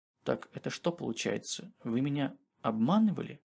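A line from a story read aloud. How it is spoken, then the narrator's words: Soft whisper. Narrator (Russian): тихонько прошептал Денис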